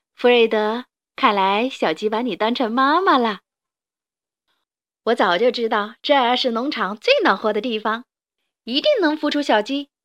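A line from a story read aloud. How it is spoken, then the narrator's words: Laughing. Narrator (Chinese): 珍妮，她笑着说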